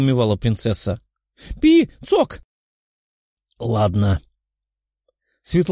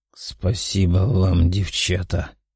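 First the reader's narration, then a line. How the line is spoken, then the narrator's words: Muttered. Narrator (Russian): пробормотал он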